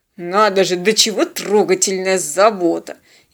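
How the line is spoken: Ironic grumble. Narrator (Russian): иронично проворчал Тед

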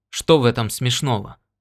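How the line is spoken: Sharp question. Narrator (Russian): спросил Норт резко

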